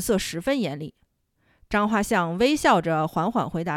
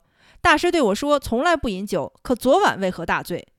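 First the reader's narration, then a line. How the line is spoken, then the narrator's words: Angry scolding. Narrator (Chinese): 田崇进怒冲冲地训斥张画像说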